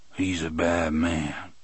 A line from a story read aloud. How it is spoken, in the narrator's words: Coffey said, but in a lower voice this time, as if he was not quite sure of what he was saying or what it meant